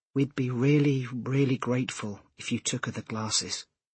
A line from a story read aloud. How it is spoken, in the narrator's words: she said quietly